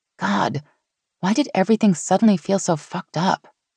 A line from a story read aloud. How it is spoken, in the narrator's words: Meg groaned